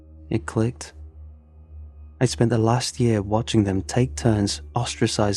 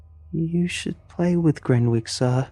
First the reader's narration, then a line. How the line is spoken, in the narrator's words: one of the quieter girls piped up, looking wide-eyed, like a hostage at gunpoint